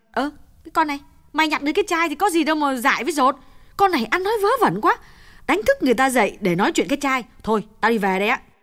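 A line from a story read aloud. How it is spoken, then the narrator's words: Impatient snapping. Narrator (Vietnamese): Như nôn nóng gắt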